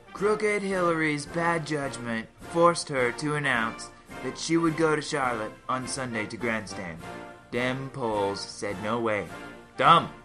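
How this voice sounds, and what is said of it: Imitates another person's voice. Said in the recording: “my Trump impersonation. ... I thought it was pretty dang good.”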